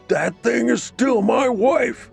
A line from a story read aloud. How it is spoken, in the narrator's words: he cried